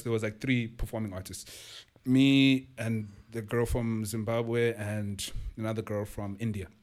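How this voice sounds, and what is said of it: Speaker's own noticeable accent. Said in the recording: “But own your accent. Don't worry about it.”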